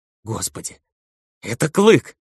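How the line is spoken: Sobbing, drug-induced giddiness. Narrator (Russian): всхлипнул в припадке химического веселья Люмбери

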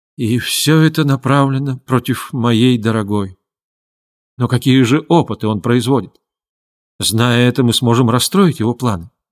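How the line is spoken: Heavy sigh. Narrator (Russian): тяжело вздохнул и сказал

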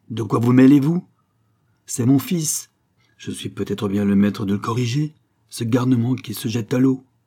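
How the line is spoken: Fierce shouting. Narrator (French): criait-il comme pour la dévorer

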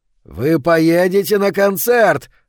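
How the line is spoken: Yelling. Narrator (Russian): орал он

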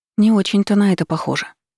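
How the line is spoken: Uncertain. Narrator (Russian): неуверенно отозвалась я

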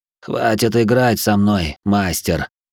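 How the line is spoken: Muffled hollow voice. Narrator (Russian): Глухо сказал

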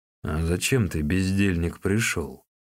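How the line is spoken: Grumbling. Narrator (Russian): проворчал Лида

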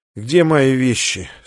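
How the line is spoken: Mostly sober voice. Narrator (Russian): спросил он более-менее трезвым голосом

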